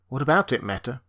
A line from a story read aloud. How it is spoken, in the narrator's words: he asked bitterly